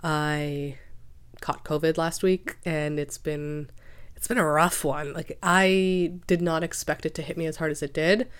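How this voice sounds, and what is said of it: Sick-sounding voice. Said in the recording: “yes, I am sick. You can probably hear that from my voice.”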